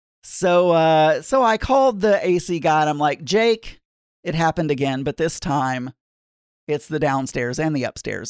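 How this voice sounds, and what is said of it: Southern American accent. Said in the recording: “I know I have a southern accent”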